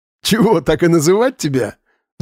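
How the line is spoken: Laughing. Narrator (Russian): засмеялся Вадим

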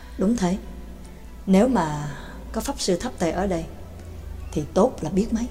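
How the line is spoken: Sighing. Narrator (Vietnamese): tiếng thở dài

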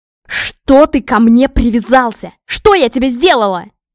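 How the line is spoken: Sudden full-force yell. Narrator (Russian): Заорала вдруг изо всех сил

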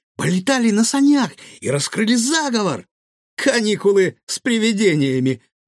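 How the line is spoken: Pleased giggle. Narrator (Russian): довольно хихикнул Гаврош

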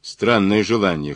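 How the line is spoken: Snorting. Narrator (Russian): хмыкнул Мазур

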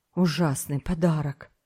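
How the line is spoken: Distrustful grumble. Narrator (Russian): буркнул Томик, недоверчиво

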